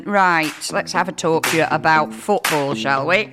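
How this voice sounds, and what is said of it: Slightly hoarse, croaky voice. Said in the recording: “I've got a little bit of a frog in my throat”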